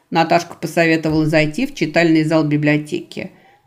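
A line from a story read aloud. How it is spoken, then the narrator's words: Plain. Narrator (Russian): сказала художница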